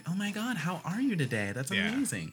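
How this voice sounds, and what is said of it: Upbeat, bubbly customer-service phone voice. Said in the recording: “I for sure have a phone voice, because the way I talk in person is very different from how I talk to someone over the phone ... the only thing you have is your tone of voice”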